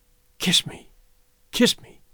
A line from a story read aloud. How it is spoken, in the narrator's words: she whispered, her face lighting